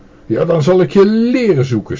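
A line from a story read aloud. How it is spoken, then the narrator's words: Master shouting. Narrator (Dutch): schreeuwde de meester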